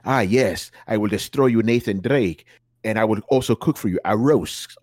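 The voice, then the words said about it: Spanish-accented Uncharted villain impression. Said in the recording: “that dude from fucking Uncharted ... Where'd the accent go?”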